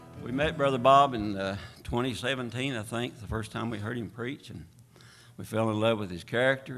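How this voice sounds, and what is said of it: East Tennessee and Virginia dialect. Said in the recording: “greetings from East Tennessee and Virginia ... You'll probably recognize that by our dialect”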